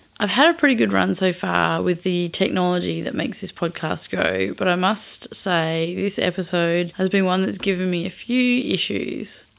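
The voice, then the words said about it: Rough, strained voice from throat trouble. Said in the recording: “I was battling nasty throat issues, so my voice sounds pretty sketchy ... the poor voice quality”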